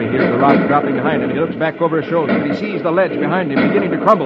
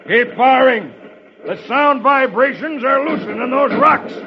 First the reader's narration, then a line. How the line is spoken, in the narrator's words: he shouts